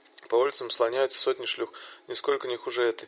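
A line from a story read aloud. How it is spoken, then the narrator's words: Contemptuous chuckle. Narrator (Russian): хохотнув, проговорил Арфи с презрительной ноткой в голосе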